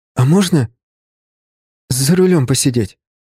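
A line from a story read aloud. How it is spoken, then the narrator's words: Timid, childlike asking. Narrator (Russian): спросил он почти робко, как мальчишка, выпрашивающий игрушку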